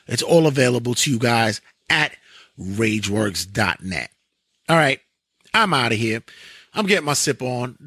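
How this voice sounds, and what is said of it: Raspy, strained voice. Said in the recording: “The voice is getting raspy.”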